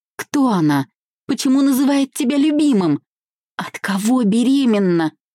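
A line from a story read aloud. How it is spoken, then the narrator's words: Pitiful heartbroken moans. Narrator (Russian): вырвались жалкими стонами сердечной боли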